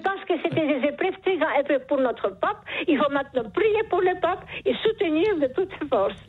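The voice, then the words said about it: Charming foreign accent. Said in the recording (French): “Vous avez un charmant accent ... ce joli accent”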